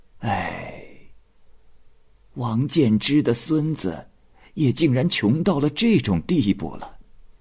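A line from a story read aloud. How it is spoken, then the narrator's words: Sighing old woman. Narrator (Chinese): 老妇人不由得叹息说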